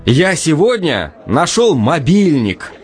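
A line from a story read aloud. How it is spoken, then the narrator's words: Happy announcement. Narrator (Russian): радостно сообщил Леша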